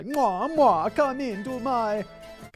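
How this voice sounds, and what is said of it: Bad put-on Italian accent. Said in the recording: “my Italian accent's so bad”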